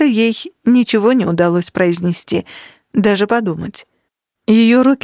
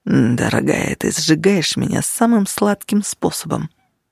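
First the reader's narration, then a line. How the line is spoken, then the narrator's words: Murmured. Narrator (Russian): пробормотал он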